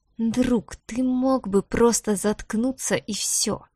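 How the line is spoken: Quiet hiss. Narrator (Russian): тихо прошипел он

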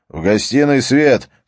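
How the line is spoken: Shouted. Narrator (Russian): крикнул

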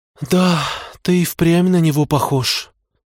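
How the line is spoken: Sighing. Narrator (Russian): вздохнула мама

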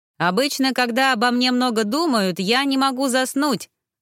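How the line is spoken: Shouted after someone. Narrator (Russian): выкрикнул мне вслед Андрес

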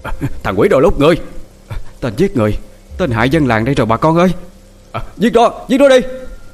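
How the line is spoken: Villagers shouting. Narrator (Vietnamese): Người dân trong làng bắt đầu hét lên

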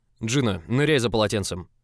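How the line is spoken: Sharp command. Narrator (Russian): Достаточно резко приказал Август итальянцу

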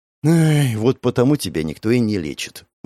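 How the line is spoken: Sighing. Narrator (Russian): вздохнул Алонсо

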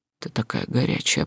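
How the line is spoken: Whisper. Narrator (Russian): прошептал он

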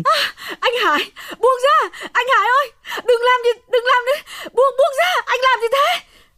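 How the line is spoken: Screaming. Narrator (Vietnamese): Hồng gào thét lên

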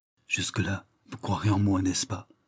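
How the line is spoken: Tender murmur. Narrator (French): murmura-t-il du ton de la plus vive tendresse

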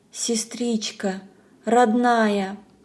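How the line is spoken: Whisper. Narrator (Russian): прошептала

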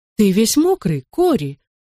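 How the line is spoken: Exclaiming. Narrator (Russian): воскликнула она

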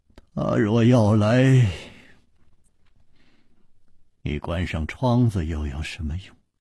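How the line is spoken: Sighing. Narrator (Chinese): 楚留香又叹道

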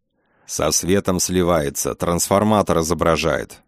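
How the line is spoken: Displeased mutter. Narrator (Russian): недовольно пробурчал Фролов

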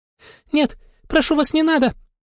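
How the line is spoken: Bird babbling. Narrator (Russian): Залепетала птица

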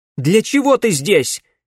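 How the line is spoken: Shout. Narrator (Russian): крикнула Камилла

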